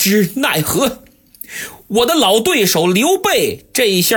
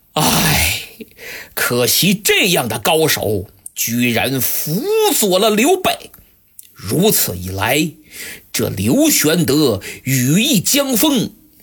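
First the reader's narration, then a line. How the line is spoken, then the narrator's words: Long sigh. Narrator (Chinese): 他长叹一声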